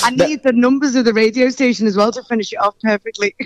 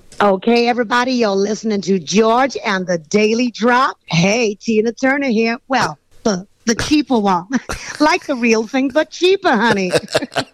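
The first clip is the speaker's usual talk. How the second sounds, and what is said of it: American accent, imitates another person's voice. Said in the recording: “the American accent. Come on, let's hear a little bit of this American accent of yours ... Tina Turner style ... Well, that's very good.”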